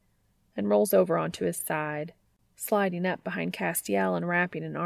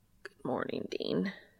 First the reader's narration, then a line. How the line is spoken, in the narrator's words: Cass rasps, his throat apparently sore from last night